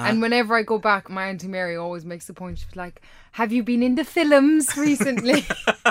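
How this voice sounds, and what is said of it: Irish Kerry accent. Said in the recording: “I'm actually pretty surprised I've managed to hold on to my accent. And if I go back to Kerry within like an hour, I am completely on I'm not able to be understood.”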